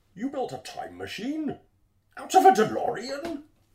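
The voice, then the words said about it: Bane impression, muffled into cup. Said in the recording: “It's really fun to do a Bane impression into a cup, but do quotes from other movies.”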